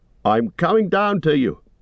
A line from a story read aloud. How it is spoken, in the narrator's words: shouted Sam